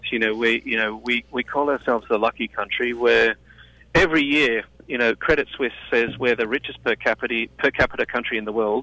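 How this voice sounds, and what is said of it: Australian accent. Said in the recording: “as you can tell from my accent, you know, I'm not an American ... I'm an Australian”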